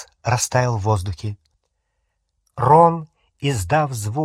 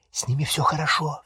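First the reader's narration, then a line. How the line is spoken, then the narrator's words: Whispered. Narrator (Russian): зашептала она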